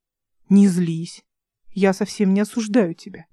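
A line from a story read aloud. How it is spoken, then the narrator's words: Soft, gentle. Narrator (Russian): мягко проговорил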